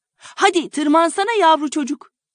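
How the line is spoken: Shouting. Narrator (Turkish): diye bağırarak

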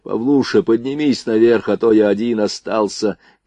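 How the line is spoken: Shout. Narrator (Russian): крикнул

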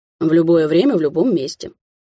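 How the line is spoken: Boastful, mocking. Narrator (Russian): хвастливо произнес он издевательским тоном

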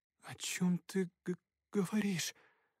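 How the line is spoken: Stammering question. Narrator (Russian): запинаясь, спросила она

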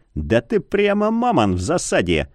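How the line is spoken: Chuckle. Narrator (Russian): хохотнул полумесяц

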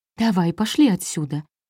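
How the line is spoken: Trembling voice. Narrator (Russian): дрожащим голосом позвала

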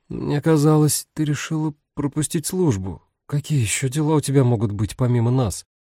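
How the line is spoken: Quiet chuckle. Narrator (Russian): Дэв тихонько усмехнулся

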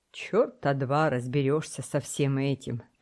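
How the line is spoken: Exasperated grumble. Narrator (Russian): пробурчал в сердцах боцман

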